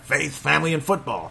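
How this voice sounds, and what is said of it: Imitates another person's voice. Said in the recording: “doing a terrible imitation. I used to be really good at it.”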